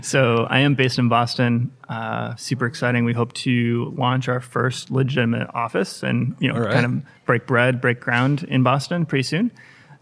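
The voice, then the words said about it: American accent. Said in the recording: “from my accent, you can tell I'm from the US... Yeah, it sounds like it.”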